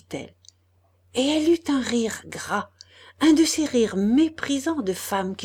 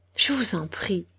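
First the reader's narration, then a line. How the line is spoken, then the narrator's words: Stammering. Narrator (French): balbutia-t-il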